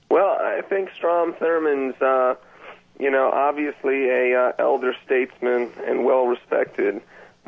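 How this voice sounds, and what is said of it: Slight southern American accent. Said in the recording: “Is that a southern accent I hear there? ... I kind of have a misconstrued accent. I'm from California, but my father's from the south.”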